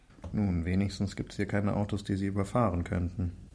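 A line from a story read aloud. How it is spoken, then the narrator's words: Murmured. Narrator (German): murmelte Viktor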